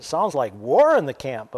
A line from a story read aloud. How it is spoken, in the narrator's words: when Joshua heard the boisterous noise of the people shouting below them, he exclaimed